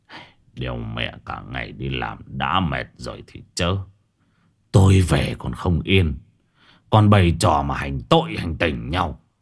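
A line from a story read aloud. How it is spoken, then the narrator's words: Weary sighing mutter. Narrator (Vietnamese): thở dài, ông Phong lẩm bẩm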